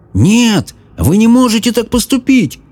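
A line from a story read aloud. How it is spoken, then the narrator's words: Shouting. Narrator (Russian): кричал Джаред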